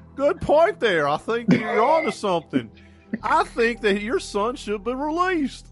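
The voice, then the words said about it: Imitates another person's voice. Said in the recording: “my Dr. Phil accent”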